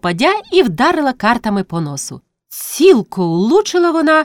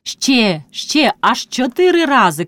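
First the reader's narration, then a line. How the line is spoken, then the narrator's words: Shout amid laughter. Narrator (Ukrainian): крикнула вона, заливаючись реготом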